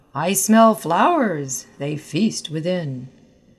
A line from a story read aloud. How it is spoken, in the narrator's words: Rowden called out